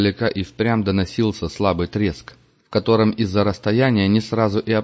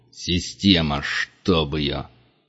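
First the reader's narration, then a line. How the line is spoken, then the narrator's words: Hissed through teeth. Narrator (Russian): процедил сквозь зубы Вольво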